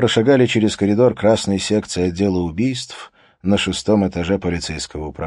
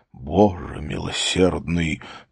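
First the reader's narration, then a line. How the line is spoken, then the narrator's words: Whispered. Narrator (Russian): прошептал начальник полиции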